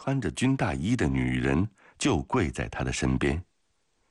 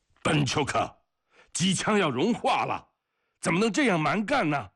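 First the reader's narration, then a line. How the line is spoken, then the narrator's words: Gruff man's irritable shout. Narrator (Chinese): 一个身体健壮的大胡子机枪手暴躁地喊着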